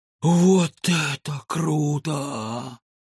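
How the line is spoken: Boy, breathless awe. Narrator (Russian): выдохнул мальчик

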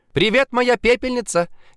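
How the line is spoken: Shouted while bursting in. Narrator (Russian): крикнула Женечка Поляковская, врываясь в квартиру

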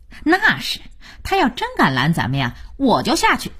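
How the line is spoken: Smiling. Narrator (Chinese): 二美满脸堆笑

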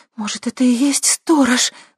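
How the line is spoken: Horrified breathless gasp. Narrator (Russian): в ужасе выдохнула Лера

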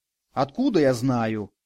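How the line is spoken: Snapping retort. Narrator (Russian): огрызнулась Катерина

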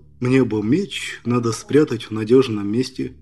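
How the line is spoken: Quiet. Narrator (Russian): Зверев тихо сказал

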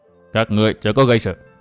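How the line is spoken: Cold, low voice. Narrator (Vietnamese): Lão ma đầu lạnh lùng trầm giọng

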